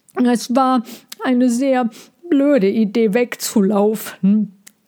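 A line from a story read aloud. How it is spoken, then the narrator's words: Mumbling through twig. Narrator (German): nuschelte er durch den Zweig in seinem Maul zu Mina hin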